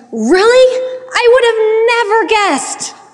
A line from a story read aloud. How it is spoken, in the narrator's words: Yes … exclaimed